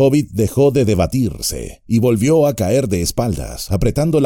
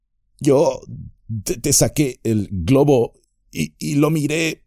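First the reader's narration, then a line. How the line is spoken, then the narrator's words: Stammering. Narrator (Spanish): balbuceó Pippin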